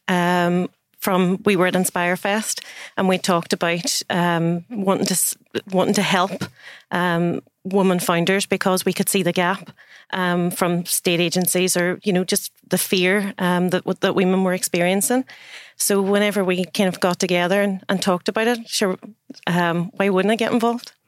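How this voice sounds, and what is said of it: Northern Irish Derry accent. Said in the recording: “a lovely IOI, Island of Ireland, accent there ... I'm a proud Derry girl.”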